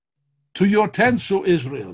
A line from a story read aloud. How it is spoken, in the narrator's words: Some called out